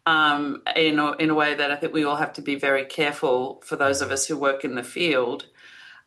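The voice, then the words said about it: Australian accent. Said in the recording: “as you can probably tell from the accent, I'm not from these parts, so I'm both a Dutch citizen, but I grew up in Australia”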